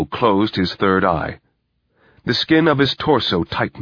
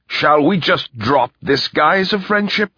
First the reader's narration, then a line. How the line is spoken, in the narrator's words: said Rumford curtly